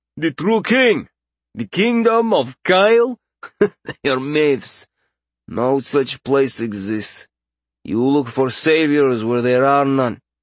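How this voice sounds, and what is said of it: Chenarian-accented character voice. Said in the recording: “With a Chenarian accent, he said”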